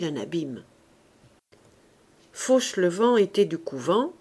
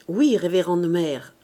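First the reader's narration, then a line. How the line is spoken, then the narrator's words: Plain. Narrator (French): répondit Fauchelevent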